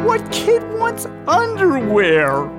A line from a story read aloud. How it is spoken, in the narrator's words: Wilton howled